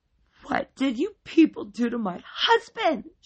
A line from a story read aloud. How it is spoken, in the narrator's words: she wailed